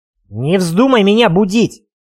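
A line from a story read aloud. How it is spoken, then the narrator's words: Barked. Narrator (Russian): рявкнул я вслед Гинеку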